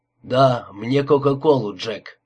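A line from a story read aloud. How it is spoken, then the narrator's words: Hoarse rasp. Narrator (Russian): прохрипел Берни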